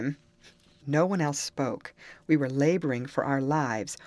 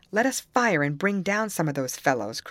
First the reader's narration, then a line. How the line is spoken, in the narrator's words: cried Carlos